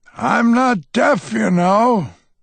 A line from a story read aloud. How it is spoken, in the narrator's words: I shout